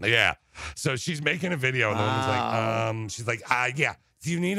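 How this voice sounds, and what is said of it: Usual voice. Nothing is said of it.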